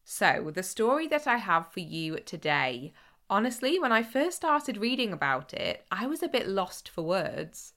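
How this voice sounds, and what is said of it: Voice sounds ill. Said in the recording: “excuse my voice. The cold I thought I was getting didn't really develop into much, but I just still sound ill.”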